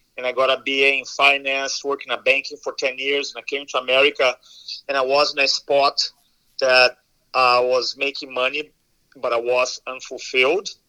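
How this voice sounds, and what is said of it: Brazilian accent. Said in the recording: “I'm from Brazil originally. Some of you are going to recognize the accent.”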